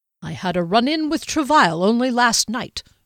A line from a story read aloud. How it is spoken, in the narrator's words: Jaskelin replied irritably